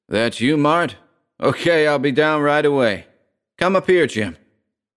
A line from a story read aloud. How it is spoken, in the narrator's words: From upstairs, Hess shouted